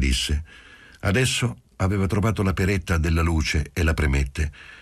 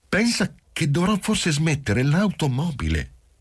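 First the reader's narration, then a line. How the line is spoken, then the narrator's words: Suddenly plaintive. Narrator (Italian): soggiunse in tono improvvisamente lamentoso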